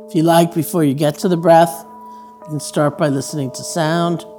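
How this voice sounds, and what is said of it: Raspy voice. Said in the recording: “the sound of my raspy voice”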